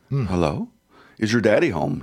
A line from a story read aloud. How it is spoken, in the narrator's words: he asked